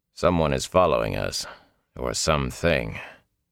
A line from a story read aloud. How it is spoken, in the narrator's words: Lan said quietly